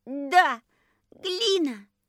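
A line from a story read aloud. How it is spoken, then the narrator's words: Delighted squeal. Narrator (Russian): взвизгнул Костя в еще большем восторге, чем Рита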